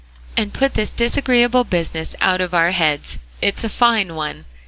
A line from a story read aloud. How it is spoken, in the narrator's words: cried Jasper to Polly